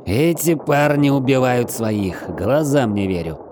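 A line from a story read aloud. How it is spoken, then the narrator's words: Joyful growl. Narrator (Russian): радостно прорычал Шрайвер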